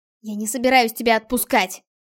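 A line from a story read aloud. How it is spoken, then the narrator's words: Angry, fighting back tears. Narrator (Russian): Зло бросила Альда, быстро моргая, чтобы избавиться от проклятых слез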